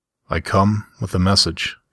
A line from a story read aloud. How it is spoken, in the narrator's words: he replied, his voice growing somber